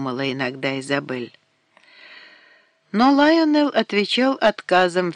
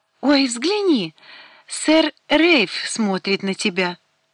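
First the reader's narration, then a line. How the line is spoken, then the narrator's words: Excited exclamation. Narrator (Russian): воскликнула Брайана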